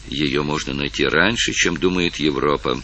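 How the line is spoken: Boastful mutter. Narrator (Russian): пробормотал хвастливый герцог Грамон

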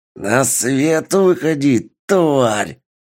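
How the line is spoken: Hissed. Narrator (Russian): Прошипел Тару

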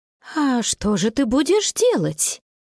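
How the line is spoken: Bewildered grandmother's question. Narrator (Russian): растерянно спросила бабушка

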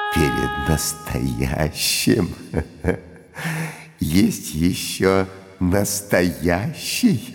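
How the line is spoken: Laughing. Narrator (Russian): засмеялся Иуда

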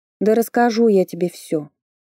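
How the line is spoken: Grumbling mumble. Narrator (Russian): пробурчала я

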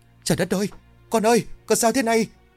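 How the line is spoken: Frightened cry. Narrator (Vietnamese): Nghe tiếng hét, Khoai đứng chết chân tại chỗ, nó sợ hãi dâng lên một cách nhanh chóng

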